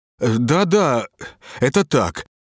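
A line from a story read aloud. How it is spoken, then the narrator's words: Trembling voice. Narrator (Russian): дрожащим голосом подтвердил Шаров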